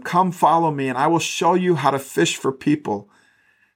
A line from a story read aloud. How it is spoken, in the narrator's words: Jesus called out to them